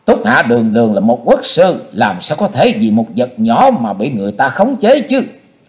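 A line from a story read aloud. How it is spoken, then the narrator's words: Loud laughing. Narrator (Vietnamese): Xung đại sư cất tiếng cười to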